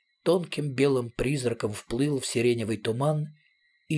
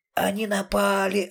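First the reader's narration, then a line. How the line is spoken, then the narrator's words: Asthmatic wheezing. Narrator (Russian): астматически сипел кто-то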